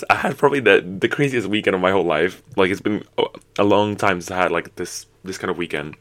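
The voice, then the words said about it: Hoarse, worn-out voice. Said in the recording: “sorry for my voice was out”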